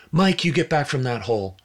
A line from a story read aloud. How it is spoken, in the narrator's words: A young mother running toward the congregation shouted